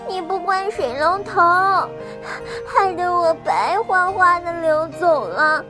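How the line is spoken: Sad crying. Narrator (Chinese): 水娃娃伤心的哭着

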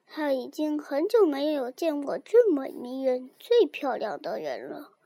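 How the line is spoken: Low voice, old king. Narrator (Chinese): 老国王 他低声对王后说

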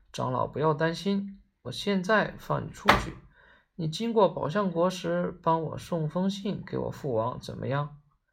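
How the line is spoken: Princess, laughing. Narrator (Chinese): 那公主笑道

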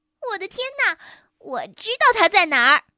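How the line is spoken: Loud shout. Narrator (Chinese): 茉莉大喊一声

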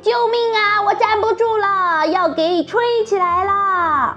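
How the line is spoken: Screaming. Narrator (Chinese): 艾玛她大叫

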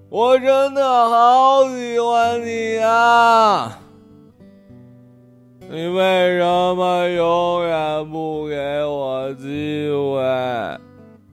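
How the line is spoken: Wailing sobbing. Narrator (Chinese): 哭着哭着就嚎啕大哭

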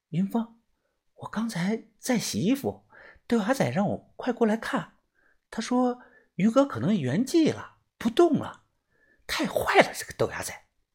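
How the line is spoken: Quiet. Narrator (Chinese): 小轩小声的说

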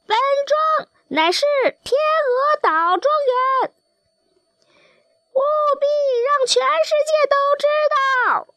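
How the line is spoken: Rooster crowing. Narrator (Chinese): 另外一只公鸡也啼叫着

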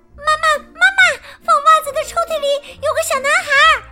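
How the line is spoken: Shouting. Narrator (Chinese): 雪莉大叫着

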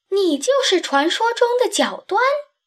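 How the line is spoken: Scream. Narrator (Chinese): 我尖叫起来

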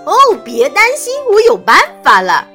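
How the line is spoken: Happy shout. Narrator (Chinese): 弗瑞德高兴地大喊

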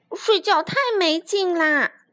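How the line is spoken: Loud shout. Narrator (Chinese): 霹雳鼠大叫

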